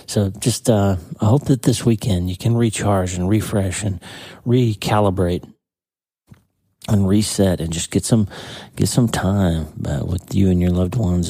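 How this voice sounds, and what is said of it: Tired voice, cracking and clicking. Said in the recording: “my voice is, I guess, just tired, but I'm having a lot of trouble with my voice kind of cracking and clicking”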